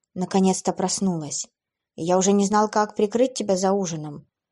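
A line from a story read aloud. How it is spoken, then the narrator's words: Relieved joking young man. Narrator (Russian): облегченно вздохнув, пошутил парень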